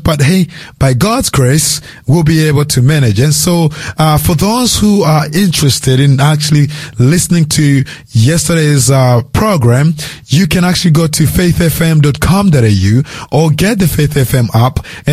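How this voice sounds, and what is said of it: Hoarse, strained voice. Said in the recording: “my voice isn't that good today. Ever since yesterday, I started losing my voice.”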